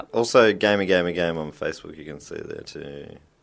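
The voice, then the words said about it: Vocal fry. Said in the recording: “Oh, I did a vocal fry. Oh. Are we on NPR all of a sudden?”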